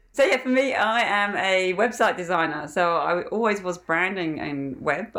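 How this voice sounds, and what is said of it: English accent with Australian influence. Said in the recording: “your beautiful accent ... It's a bit of a hybrid now. I get people can't always pick it. So I'm from England originally, and I've been in Australia for 15 years now. And I'm married to a very Australian sounding person. So I've picked up a lot”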